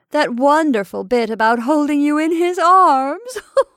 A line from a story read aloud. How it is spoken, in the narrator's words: moaned Maura